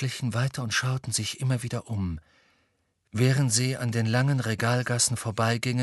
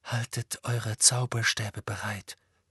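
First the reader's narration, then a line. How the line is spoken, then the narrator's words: Quiet. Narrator (German): sagte Harry leise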